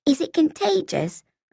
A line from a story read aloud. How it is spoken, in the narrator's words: I asked, wanting suddenly and desperately to wash my hands